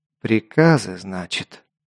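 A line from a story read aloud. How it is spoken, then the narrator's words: Thoughtful speech. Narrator (Russian): задумчиво произнес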